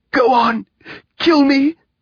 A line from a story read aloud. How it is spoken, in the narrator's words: said Salo raspingly